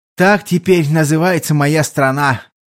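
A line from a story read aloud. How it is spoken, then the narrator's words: Heavy nostalgic sigh. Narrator (Russian): тяжело вздохнул Гуэнь, явно бывший поклонником давно почившей империи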